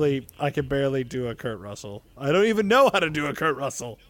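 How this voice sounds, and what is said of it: Usual voice. Nothing is said of it.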